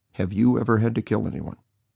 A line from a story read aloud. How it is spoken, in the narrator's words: calmly, coldly said